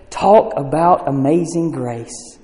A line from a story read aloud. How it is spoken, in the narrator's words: in awe and quietly said